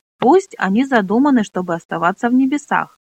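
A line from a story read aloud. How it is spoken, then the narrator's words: Plain. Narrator (Russian): сказал Пьемур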